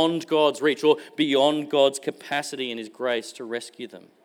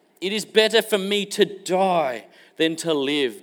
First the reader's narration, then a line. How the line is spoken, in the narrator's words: Jonah exclaims